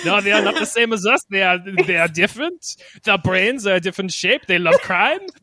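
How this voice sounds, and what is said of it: Put-on French accent. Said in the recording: “my terrible French accent”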